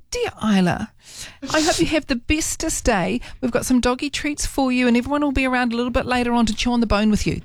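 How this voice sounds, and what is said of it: Special voice for talking to a pet. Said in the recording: “put on the very special voice.”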